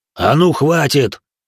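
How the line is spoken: Booming giant's bark. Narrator (Russian): громогласно рявкнул гигант

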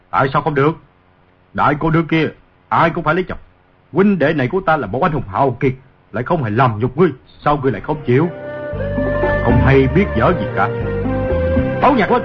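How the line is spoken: Angry. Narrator (Vietnamese): Ngô Lập Thân tức giận nói

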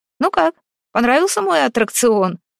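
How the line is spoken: Short laugh. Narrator (Russian): хохотнул Роман

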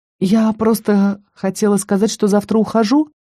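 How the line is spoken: Faltering, losing confidence. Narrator (Russian): пролепетала я, теряя уверенность с каждым словом

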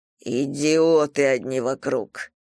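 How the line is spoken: Muttered. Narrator (Russian): пробормотал император через мгновение

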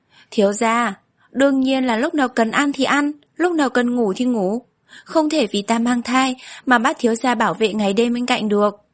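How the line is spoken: Laughing. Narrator (Vietnamese): Tư Tư không nhịn được bật cười

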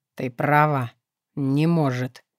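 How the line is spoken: Flat lifeless voice. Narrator (Russian): мертвым голосом проговорил

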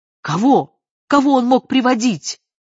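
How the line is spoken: Shout. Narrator (Russian): крикнула Вера

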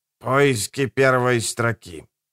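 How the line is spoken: Hoarse rasp. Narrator (Russian): прохрипел Джордж

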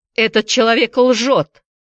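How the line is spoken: Shouted. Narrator (Russian): закричал Вампас

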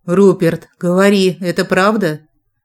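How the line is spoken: Raised, demanding, harsh hoarse voice. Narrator (Russian): Повысила голос и требовательно, жесткой хрипотцой повторила

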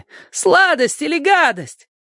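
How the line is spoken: Children yelling loudly. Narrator (Russian): дети во все горло вопили

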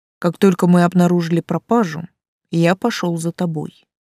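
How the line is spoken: Plain. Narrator (Russian): сказал Тан

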